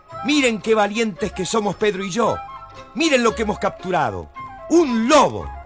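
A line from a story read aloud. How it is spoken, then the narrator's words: Little bird's joyful cry. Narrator (Spanish): el pajarito revoloteaba alegremente y gritaba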